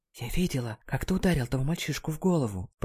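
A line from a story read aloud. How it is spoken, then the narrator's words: Whisper. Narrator (Russian): прошептала она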